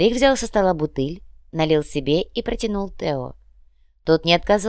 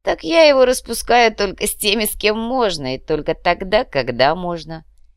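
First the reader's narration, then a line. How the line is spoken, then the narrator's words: Amused snort. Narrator (Russian): хмыкнул Самуэль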